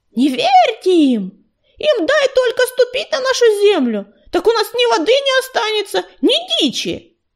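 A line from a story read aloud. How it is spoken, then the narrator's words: Loud yell. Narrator (Russian): кто-то из ее соплеменников громко завопил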